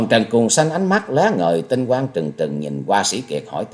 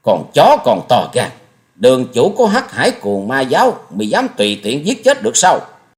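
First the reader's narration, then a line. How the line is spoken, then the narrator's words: Angry snort. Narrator (Vietnamese): Hồng Trần Cuồng Sanh hừ lên một tiếng giận dữ nói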